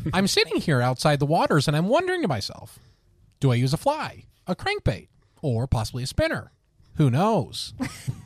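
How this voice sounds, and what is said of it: Tucker Carlson impression. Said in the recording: “Do your best Tucker Carlson fishing impersonation. ... That was really good. ... He talks in like that. Like that's old Tucker though.”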